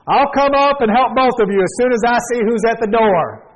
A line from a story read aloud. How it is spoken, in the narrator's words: she yelled